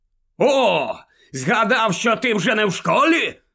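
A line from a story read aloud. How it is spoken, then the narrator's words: Barked, breathing heavily. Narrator (Ukrainian): гаркнув Скрімджер, важко дихаючи в обличчя Гаррі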